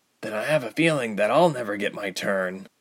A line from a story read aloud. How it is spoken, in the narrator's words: Ilse muttered